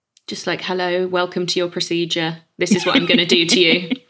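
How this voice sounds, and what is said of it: Flat monotone delivery. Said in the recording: “That was so monotone”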